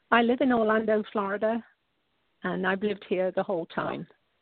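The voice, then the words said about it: British accent. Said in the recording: “now we know from your accent that you're not from the U.S., and I mentioned about being from the U.K.”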